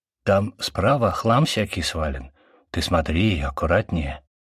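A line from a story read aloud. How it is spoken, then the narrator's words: Whispered in ear. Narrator (Russian): прошептал мне на ухо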